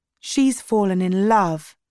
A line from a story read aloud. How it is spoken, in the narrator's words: Marnie said